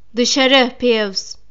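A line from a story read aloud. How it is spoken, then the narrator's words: Shouting. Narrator (Turkish): diye bağırdı Profesör McGonagall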